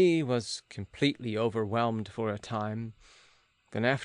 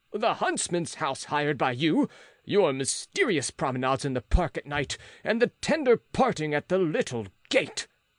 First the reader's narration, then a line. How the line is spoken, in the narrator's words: cried Philippe